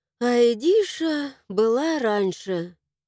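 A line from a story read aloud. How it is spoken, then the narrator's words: Sigh. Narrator (Russian): вздохнула я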